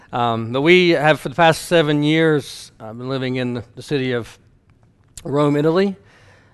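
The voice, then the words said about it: Slight Southern Ohio twang. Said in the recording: “we are from Southern Ohio ... We are hillbillies ... if you detect a little bit of a twang, it's not just, I come by that honestly ... it's not a fake”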